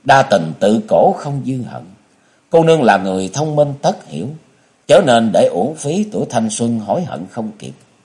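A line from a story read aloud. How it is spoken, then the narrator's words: Low voice, suppressed sigh. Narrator (Vietnamese): Hoa Thiên Hồng nén tiếng thở dài thấp giọng nói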